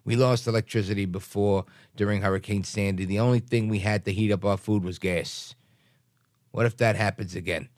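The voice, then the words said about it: Put-on accent reading a quote. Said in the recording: “I'm adding the accent for emphasis.”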